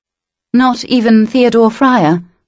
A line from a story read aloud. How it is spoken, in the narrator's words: She asked hesitantly